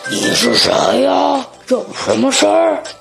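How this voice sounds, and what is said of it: Thick, deep, gruff character voice. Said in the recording (Chinese): “他用他那粗壮的声音说”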